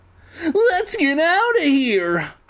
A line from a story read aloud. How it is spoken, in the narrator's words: I shrieked